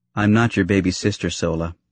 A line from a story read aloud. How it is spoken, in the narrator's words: Padme said flatly, her tone turning to true consternation